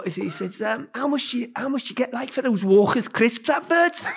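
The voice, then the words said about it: Put-on Scouse accent. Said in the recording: “Sorry about the Scouse accent”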